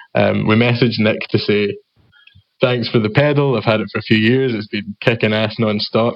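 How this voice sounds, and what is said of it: Scottish accent. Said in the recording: “I don't know if my accent is going to screw that one up for you all ... I'm used to the Scottish accent now”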